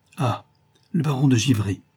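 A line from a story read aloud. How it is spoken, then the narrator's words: Warm, cordial exclamation. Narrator (French): s'écria-t-il avec cordialité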